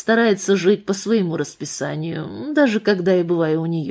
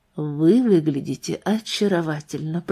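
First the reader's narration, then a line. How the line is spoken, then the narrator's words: Soft. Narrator (Russian): проговорил он мягко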